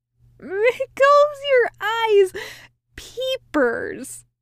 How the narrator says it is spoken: he cackled

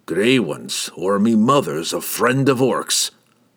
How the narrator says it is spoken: Brunner grumbled

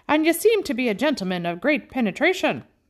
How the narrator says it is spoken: cried the other

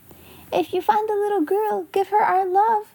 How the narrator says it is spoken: shouted Guy Clarence

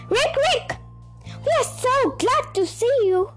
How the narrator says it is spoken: cried everyone

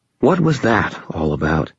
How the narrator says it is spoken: Murphy said, keeping her voice low

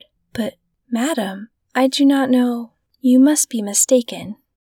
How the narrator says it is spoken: astonished to be familiarly addressed by this plain goodwife, did not recognize her at all and stammered

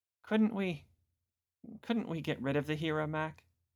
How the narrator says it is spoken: She asked timidly

